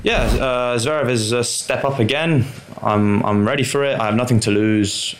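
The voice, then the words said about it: English accent. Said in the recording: “he definitely sounds English”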